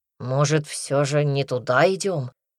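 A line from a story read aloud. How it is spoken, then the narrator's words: Grumbling. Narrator (Russian): проворчал Никита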